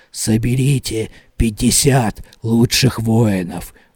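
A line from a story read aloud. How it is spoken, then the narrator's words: Whisper. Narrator (Russian): вновь прошептала голова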